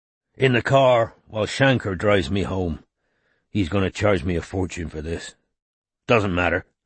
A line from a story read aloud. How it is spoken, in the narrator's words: he added gruffly